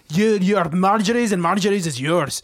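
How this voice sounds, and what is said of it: Poor put-on Scottish accent. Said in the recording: “I'm so sorry if I'm obliterating these impressions... What happened to the Scottish accent? obliterated it.”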